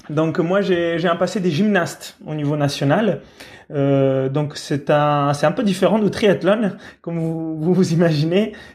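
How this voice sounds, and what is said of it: Italian accent. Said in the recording (French): “je viens d'Italie. Voilà, vous entendez probablement mon accent”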